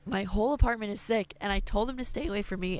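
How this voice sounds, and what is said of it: Strained voice, losing it. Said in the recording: “I'm losing my voice as we speak”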